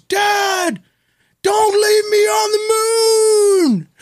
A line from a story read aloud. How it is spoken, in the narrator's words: he runs after him and he screams